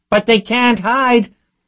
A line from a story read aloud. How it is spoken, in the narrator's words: Nagley screamed back